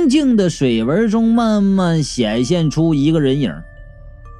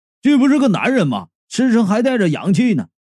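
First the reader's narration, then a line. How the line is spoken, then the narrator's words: Alarmed exclamation. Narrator (Chinese): 矮胖子惊叫道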